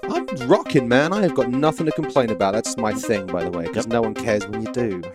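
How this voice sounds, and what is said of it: Cajun Southern accent. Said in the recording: “You can probably detect ... Cajun accent. ... Southern”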